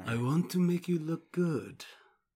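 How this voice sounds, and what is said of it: Put-on Nosferatu-style vampire accent. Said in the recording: “that's not the right accent. ... He's not like a like Armenian mobster. ... I'm going for Nosferatu”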